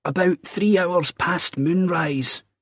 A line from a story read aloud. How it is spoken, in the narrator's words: croaked